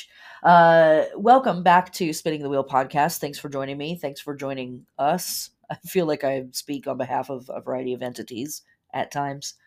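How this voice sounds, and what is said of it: Congested, stuffed-up voice. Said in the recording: “if I sound a little stuffed up. I am dealing with a head cold right now”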